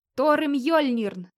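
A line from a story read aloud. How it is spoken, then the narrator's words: Harsh bark, very close. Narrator (Russian): рявкнул где-то совсем рядом чужой резкий голос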